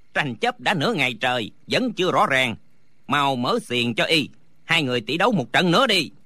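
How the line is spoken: Shouting. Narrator (Vietnamese): Lý Tứ quát lên

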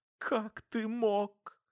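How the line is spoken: Sobbing. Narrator (Russian): Она всхлипнула

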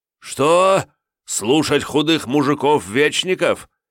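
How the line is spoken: Hateful shout. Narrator (Russian): с ненавистью выкрикнул Святослав

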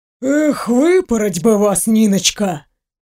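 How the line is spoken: Good-natured old man's grumble. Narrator (Russian): Добродушно проворчал старый доктор

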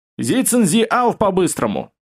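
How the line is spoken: Shouted. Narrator (Russian): Ассоциативно крикнул

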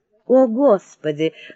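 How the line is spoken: Sigh. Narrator (Russian): вздохнула леди Мэнфрей

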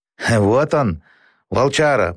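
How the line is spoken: Hoarse wheeze. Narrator (Russian): просипел Абу

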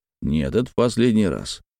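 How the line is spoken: Grumbling. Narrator (Russian): Ворчал

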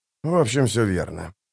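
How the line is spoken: Muttering. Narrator (Russian): пробормотал Хават

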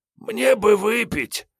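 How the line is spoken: Hoarse voice from bunk. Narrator (Russian): донеслось с койки хриплое

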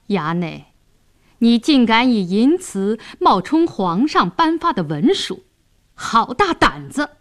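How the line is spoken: Sneering. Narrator (Chinese): 白世忠冷笑道

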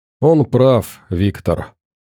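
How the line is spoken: Tired voice. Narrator (Russian): усталым голосом сказал Эванс

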